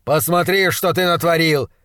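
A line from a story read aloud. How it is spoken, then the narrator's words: Shouting. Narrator (Russian): закричал он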